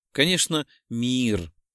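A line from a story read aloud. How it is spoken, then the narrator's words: Relieved sigh. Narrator (Russian): С облегчением вздохнула Белоснежка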